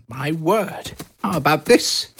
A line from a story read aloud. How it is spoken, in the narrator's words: cried Harry as he scuttled through the halls